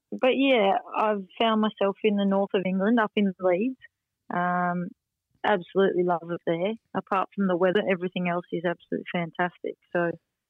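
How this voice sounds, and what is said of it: Rural Australian accent, no English twang. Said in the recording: “a bush kid's always a bush kid ... You can tell in my accent, can't you? I certainly haven't picked up an English proper accent. ... No, there's no twang at all.”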